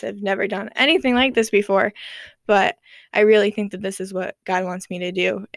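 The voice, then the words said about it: Nervous voice. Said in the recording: “I'm also very nervous, as you can tell in my voice.”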